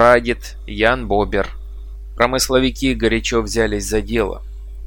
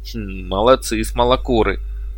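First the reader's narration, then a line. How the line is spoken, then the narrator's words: Approving grumble. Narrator (Russian): одобрительно буркнул Вильям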